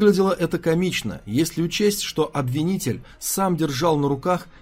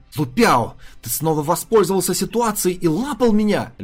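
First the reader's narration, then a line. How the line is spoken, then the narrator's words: Screamed. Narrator (Russian): завопила Сюэ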